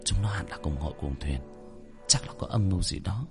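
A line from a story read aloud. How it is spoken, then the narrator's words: Muttering through gritted teeth. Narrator (Vietnamese): Hắc Hoa nghiến răng nghiến lợi, lẩm bẩm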